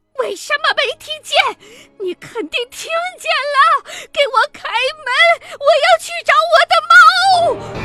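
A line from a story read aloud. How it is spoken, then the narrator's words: Old woman's furious shrill shout. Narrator (Chinese): 老奶奶见她摇头，突然暴怒，尖利地高喊着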